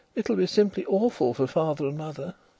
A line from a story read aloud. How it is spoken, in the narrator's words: in the midst of a great submissive silence, she murmured